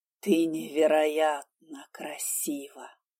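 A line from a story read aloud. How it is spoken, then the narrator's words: Whispered. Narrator (Russian): прошептал Конрад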